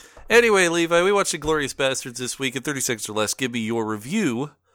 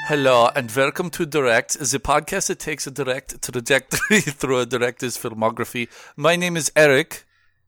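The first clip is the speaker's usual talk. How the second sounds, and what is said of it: Put-on Italian accent. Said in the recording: “accents are done. ... We sound like we're speaking Italian”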